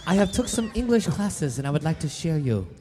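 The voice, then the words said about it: Accented character voice. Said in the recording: “Still with that accent.”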